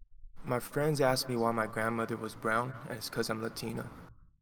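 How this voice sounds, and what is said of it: Hawaiian accent with pidgin. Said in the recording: “the accent is already Hawaiian ... there's a little pigeon in that”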